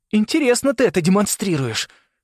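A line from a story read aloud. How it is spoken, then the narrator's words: Through gritted teeth. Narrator (Russian): сквозь зубы сказал Саймон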